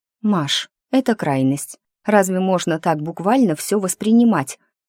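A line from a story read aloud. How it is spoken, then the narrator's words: Bewildered whisper. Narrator (Russian): растерянно прошептала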